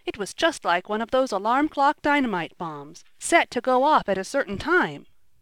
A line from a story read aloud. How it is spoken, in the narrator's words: cried Ned